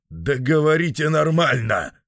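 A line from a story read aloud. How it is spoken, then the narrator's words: Irritated bark. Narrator (Russian): раздраженно рявкнул Вервольф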